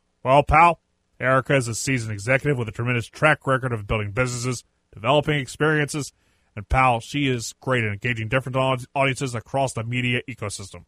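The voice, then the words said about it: Imitates another person's voice. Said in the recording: “my best Vince McMahon impersonation”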